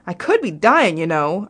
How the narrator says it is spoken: shouted

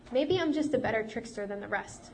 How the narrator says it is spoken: she replied quickly

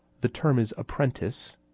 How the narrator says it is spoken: Esper said calmly

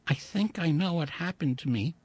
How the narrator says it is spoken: he said softly

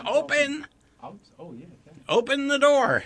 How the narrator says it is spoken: shouted to Max

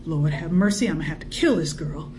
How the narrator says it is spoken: Emmeline could not help muttering

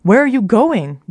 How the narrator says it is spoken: Jor shouted

